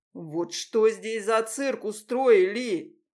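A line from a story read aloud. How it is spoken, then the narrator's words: Booming bass voice. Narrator (Russian): Прогремел бас Алексея Романовича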